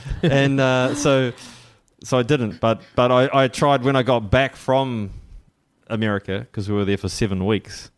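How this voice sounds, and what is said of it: New Zealand accent. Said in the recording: “Kiwi accent ... Kiwi accent, mate”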